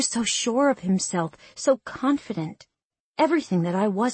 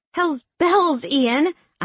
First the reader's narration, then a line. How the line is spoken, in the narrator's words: I exclaimed